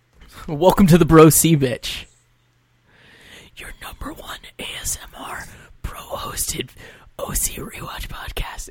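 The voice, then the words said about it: Whispering ASMR-style delivery. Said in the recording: “I think I'm terrible at whispering. ... That was really good.”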